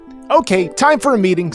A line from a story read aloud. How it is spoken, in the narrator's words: Sonic exclaimed